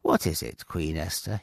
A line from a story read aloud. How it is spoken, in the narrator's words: asked kindly